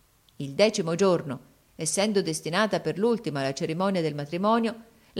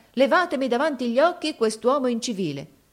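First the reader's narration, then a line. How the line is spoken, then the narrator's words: Exclaimed. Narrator (Italian): esclamò essa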